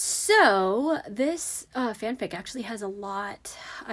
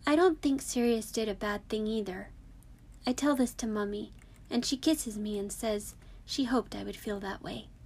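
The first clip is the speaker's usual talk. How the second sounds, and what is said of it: Adult doing a child's voice. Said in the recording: “That was actually really fun to do the child voice.”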